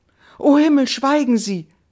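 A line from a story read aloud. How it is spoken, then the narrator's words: Young woman exclaims. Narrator (German): rief die junge Frau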